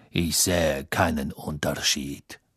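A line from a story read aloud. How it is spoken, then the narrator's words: Cold. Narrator (German): Snape sah Hermine kalt an, dann sagte er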